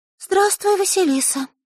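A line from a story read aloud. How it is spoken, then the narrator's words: Timid little girl. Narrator (Russian): робко сказала девочка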